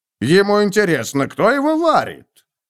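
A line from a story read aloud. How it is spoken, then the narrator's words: Angry grumble. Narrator (Russian): Готрек сердито проворчал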